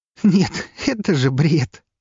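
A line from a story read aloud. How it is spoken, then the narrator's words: Said through laughter. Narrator (Russian): сквозь смех выдала она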